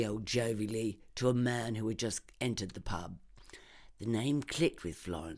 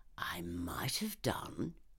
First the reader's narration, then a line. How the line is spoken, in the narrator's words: he whispered conspiratorially